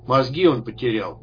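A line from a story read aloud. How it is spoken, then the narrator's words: Gloomy, through door gap. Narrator (Russian): мрачно сказал вернувшийся москит через щель в двери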